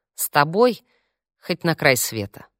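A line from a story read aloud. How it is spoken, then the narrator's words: Quiet. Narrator (Russian): так же тихо ответил он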